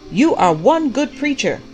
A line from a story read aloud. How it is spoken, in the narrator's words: shouted back